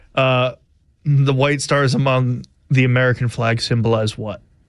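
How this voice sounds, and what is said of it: Flat, monotone, unenthusiastic delivery. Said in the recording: “You sound like you have no enthusiasm for this quiz whatsoever ... Very monotone ... get some oomph”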